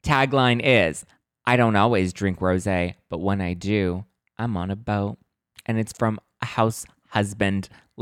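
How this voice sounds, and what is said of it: Hoarse, partly lost voice. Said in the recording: “My voice is a little bit gone ... I had to project my voice very much ... my voice is a little kind of almost gone-ish”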